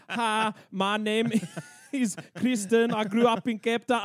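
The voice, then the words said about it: Put-on South African female accent. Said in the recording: “South African accents on women have to be one of the most unattractive things”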